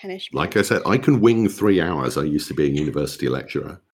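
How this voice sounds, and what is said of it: British accent. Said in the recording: “I'm in the UK, if you can't tell from my accent.”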